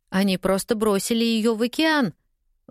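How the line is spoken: Exclaimed. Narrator (Russian): воскликнула Клаудия

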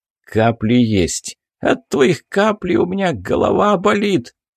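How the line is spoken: Creaky voice, fat man. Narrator (Russian): проскрипел толстяк

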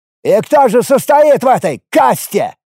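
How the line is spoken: Fisherman shouting. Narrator (Russian): крикнул один из рыбаков, кажется, Ласса

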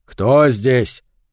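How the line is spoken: Shout. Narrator (Russian): крикнул Сильвера

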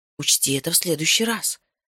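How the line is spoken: Pleading whisper in ear. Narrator (Russian): сказал я ему на ухо умоляющим шепотом

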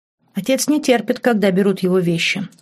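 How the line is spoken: Cold, young woman. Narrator (Russian): холодно продолжила девушка

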